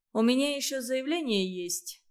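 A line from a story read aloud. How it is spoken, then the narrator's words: Plain. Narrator (Russian): сказал он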